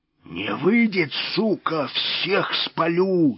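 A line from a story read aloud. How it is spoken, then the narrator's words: Hoarse yelling. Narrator (Russian): сипло орал он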